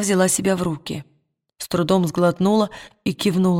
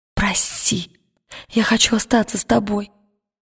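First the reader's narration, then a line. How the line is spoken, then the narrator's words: Whisper. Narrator (Russian): прошептала она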